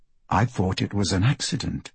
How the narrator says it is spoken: Celia says softly

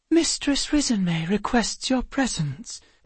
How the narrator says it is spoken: one of the fairies announced in her high voice

